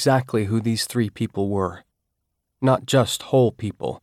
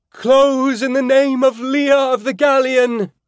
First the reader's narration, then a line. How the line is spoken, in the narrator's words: Claudia bellowed